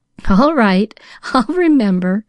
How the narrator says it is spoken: laughed Pollyanna

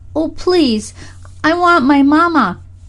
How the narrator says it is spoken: cried Freddie

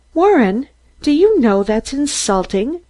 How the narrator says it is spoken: Mary exclaimed angrily

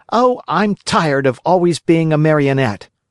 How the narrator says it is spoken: cried Pinocchio disgustedly

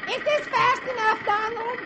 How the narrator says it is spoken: she shouts

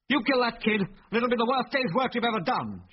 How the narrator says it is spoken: shouted Biggles furiously

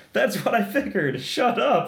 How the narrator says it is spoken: he yells

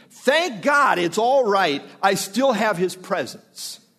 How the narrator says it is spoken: Wesley joyfully exclaiming

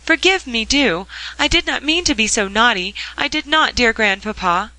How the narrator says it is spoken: cried Polly, with a sudden rush of tears

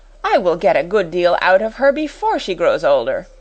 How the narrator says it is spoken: exclaimed Miss Minchin

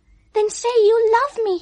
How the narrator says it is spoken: he cried

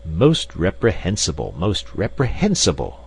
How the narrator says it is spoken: exclaimed Professor Porter, with a faint trace of irritation in his voice

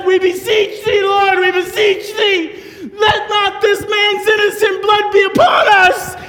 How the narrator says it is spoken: cried out and they said

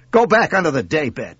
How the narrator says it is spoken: snapped

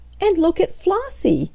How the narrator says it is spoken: exclaimed Aunt Sarah

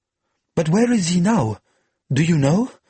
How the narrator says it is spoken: Marguerite asked eagerly

